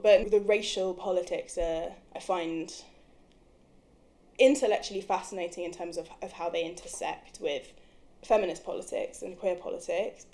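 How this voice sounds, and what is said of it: British accent. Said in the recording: “I sound like this. ... how British my accent is”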